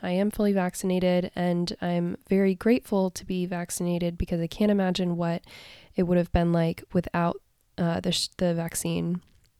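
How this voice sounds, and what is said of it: Slightly hoarse voice. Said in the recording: “my voice is a little bit hoarse.”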